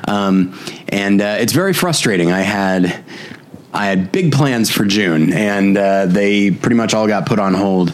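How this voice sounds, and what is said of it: Sick-sounding voice. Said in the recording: “I'm still a little bit sick. You can probably hear it in my voice... fight off bronchitis”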